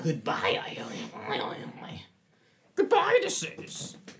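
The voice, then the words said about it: Yoda character voice impression. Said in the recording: “your best Yoda impression... Say goodbye in the Yoda... That's pretty good”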